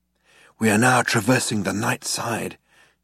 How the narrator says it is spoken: he said in a hushed voice

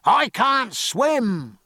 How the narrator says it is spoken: roared the pilot

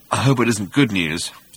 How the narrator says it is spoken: muttered Zippo Bibrock 5×10⁸

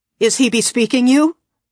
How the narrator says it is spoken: Olive Pasval asked sharply

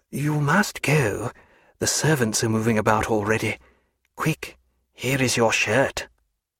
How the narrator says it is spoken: saying in a low, urgent tone

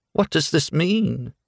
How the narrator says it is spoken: she cried faintly

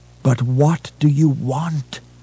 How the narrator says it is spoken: He begged

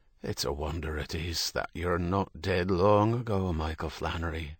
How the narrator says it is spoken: Herity said

